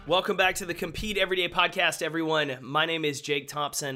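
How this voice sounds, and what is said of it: Raspy, strained voice. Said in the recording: “my voice is starting to go... My voice on the interview is a little out... a little bit of a raspy voice”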